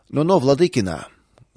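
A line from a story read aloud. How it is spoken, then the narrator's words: Rough interruption, older man. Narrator (Russian): грубо прервал старший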